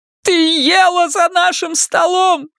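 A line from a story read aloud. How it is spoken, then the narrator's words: Sudden shout. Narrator (Russian): неожиданно крикнула Карла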